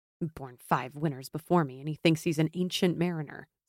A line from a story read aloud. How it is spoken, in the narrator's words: Simon grumbled under his breath